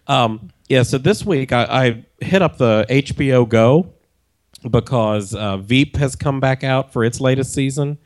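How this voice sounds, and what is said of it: Sick, strained voice. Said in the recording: “trying to power through the cold ... you can tell by my voice ... I could barely talk at all”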